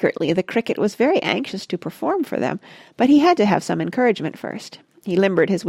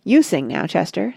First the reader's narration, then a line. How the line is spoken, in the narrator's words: said Harry Cat